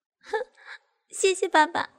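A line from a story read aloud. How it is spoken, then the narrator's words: Coy giggle. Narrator (Chinese): 娇笑的说道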